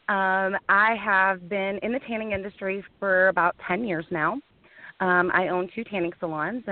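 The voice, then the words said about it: Southern American accent. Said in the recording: “by way of Georgia. So I have an awesome Southern accent.”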